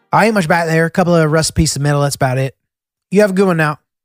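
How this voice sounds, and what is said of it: Made-up imitation of Southern accent. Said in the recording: “I responded in a southern accent ... that's not even really a southern accent. That's just some created accent that I just made up”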